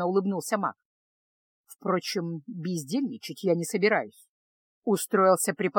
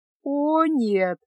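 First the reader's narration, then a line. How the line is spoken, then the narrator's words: Laughing groan. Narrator (Russian): со смехом простонала Феска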